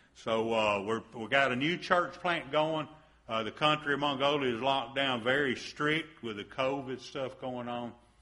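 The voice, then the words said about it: Southern American accent. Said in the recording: “I have a southern accent. They think I'm British over there. They know I have an accent.”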